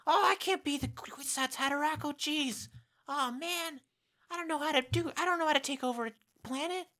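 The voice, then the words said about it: Childlike nervous character voice. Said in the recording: “Your child character voice is surprisingly good. ... it's very Morty. ... You're just sinking into the Morty idiosyncrasy. ... You're saying oh geez.”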